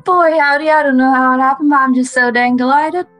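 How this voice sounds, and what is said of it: Put-on American southern accent. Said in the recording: “Oh, you have a southern accent.”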